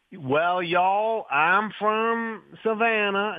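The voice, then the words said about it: English speaker's unconvincing Southern American accent. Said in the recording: “English actors who are always on American TV shows ... doing an American accent ... That's the best you can do.”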